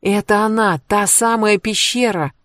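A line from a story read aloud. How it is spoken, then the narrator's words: Exclaimed. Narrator (Russian): воскликнула Кэтрин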